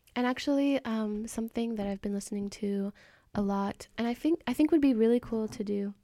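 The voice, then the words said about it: Fake British accent. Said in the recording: “like a fake British accent”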